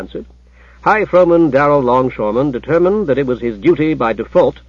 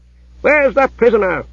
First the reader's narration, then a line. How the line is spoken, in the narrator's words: he roared